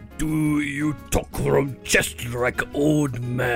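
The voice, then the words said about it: Imitated Japanese accent. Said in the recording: “they used to try to get me to speak with a Japanese accent ... that's exactly how they said it”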